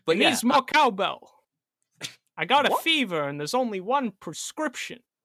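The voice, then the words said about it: Bad impression of another person's voice. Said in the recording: “really bad Christopher Walken impression”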